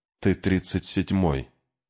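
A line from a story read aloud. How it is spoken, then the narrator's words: Whispered. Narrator (Russian): прошептал Артур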